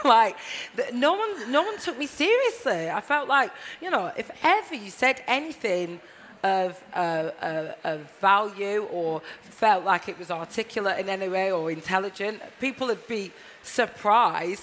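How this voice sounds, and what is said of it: Northern English Blackburn accent. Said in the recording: “my accent's definitely more celebrated now ... when I first moved from Blackburn 14 years ago, this was not the accent to have”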